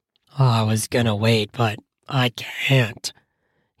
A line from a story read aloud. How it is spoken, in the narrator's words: he mutters